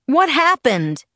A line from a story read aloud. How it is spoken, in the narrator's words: he yelled